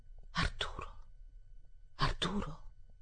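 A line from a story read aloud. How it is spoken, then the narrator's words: Called softly. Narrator (Italian): chiamò a voce bassa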